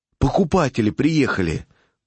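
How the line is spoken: Whisper. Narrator (Russian): послышался шепот

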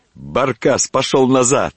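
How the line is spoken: Cheerful shout. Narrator (Russian): весело крикнул

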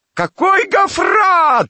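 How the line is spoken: Screamed. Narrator (Russian): завопила Амалия

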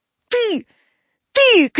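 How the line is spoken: Shouting. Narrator (Russian): крикнул

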